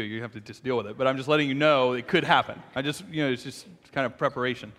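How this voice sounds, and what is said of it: Shaky, strained voice. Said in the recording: “my voice is a little shaky this morning. So if it starts to go”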